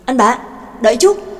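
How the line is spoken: Sudden urgent call. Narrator (Vietnamese): Trác Mộc Cường Ba đột nhiên bừng tỉnh, kêu lên

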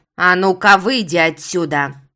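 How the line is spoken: Barking shout. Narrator (Russian): Гаркнула на него Лада

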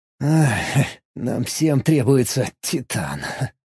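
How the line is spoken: Inner scoffing thought. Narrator (Russian): мысленно хмыкнул

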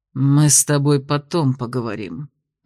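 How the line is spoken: Hateful through-teeth mutter. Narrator (Russian): процедил теневик, с ненавистью

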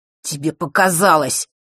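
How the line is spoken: Growled. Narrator (Russian): прорычал он

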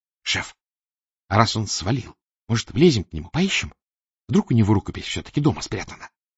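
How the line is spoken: Whispered. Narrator (Russian): шепнула Валя

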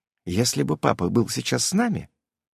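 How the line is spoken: Quiet reply, older girl. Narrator (Russian): тихо ответила старшая

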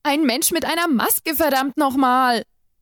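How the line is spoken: Panicked shout. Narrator (German): rief ich mittlerweile panisch

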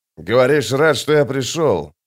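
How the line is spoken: Grumbling. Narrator (Russian): пробурчал Остряк

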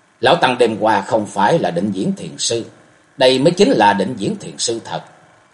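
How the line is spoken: Stunned muttering. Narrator (Vietnamese): Thạch Mộng sững người, chàng lẩm bẩm

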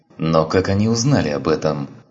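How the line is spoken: Angry question. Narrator (Russian): сердито спросил Андерсон

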